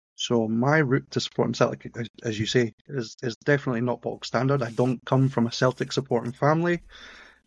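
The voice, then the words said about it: Edinburgh Scottish accent. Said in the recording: “As you'll tell by the accent, I don't come from Glasgow. Some people wouldn't even tell you that I come from Scotland, given the accent, but I am from Edinburgh.”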